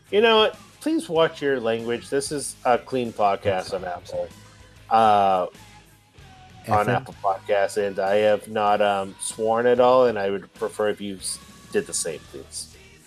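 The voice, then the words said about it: Stern teacher-like voice. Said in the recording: “I brought up my teacher voice.”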